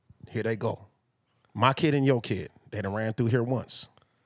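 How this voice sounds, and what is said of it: Exaggerated stern dad character voice. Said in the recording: “my amazing nigga dad voice ... We're gonna work on your nigga dad voice today”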